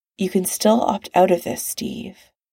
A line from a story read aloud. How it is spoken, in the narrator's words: And Tony says, quietly